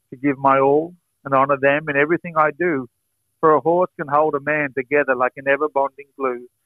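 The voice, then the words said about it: Australian accent. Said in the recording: “Australia's own... My Australian stock whip share my heritage, mate, my accent shows my breed.”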